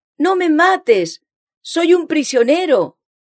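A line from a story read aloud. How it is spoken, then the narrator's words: Shout. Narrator (Spanish): el grito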